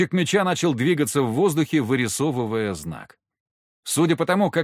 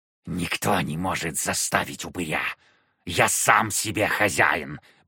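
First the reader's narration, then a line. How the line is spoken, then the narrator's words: Hissing creature. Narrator (Russian): прошипела тварь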